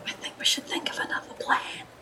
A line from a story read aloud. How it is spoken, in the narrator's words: whispers under breath